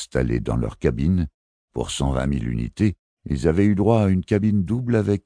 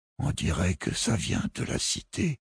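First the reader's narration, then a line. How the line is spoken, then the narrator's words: Pale murmur. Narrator (French): murmura Robin de Fart livide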